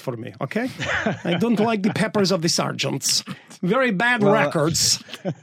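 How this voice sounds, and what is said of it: Put-on Borat-style accent. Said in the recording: “Can you do that in a Borat accent, though?”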